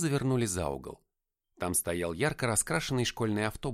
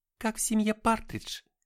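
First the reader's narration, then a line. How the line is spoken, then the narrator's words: Laughing. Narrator (Russian): засмеялась Аврора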